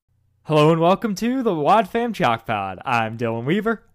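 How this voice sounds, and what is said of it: Loud announcer voice, peaking mic. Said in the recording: “I'm way too close to the mic right now ... I'm using my announcer voice and it peaks”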